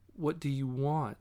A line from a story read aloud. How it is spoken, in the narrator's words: Stevie asked